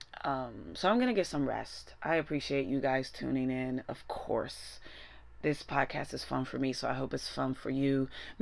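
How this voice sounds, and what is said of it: Strained, cracky voice. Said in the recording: “I'm struggling to speak and my voice is very cracky”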